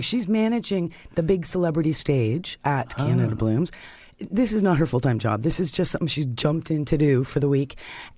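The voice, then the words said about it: Deep, strained, worn-out voice. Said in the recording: “Can you hear my voice? ... my voice is suffering for it. But I'm perfectly healthy. I don't have a cold or anything. It just goes deeper and deeper.”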